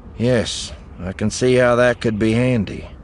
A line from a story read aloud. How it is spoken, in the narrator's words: Eli said dryly